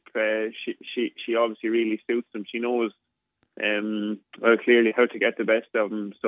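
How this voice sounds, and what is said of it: Speaks with a distinct accent. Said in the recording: “you got to love that accent. You got to love that accent.”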